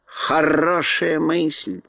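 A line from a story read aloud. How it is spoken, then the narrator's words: Mocking drawl. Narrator (Russian): насмешливо протянула Кагикар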